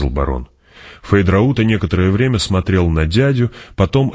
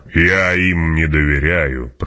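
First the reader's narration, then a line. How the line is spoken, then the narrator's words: Growling. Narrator (Russian): прорычал барон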